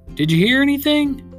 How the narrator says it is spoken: He shouted

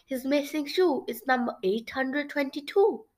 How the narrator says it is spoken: she exclaimed

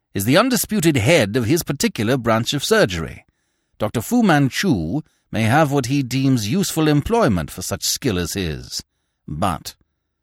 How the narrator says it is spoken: snapped Smith

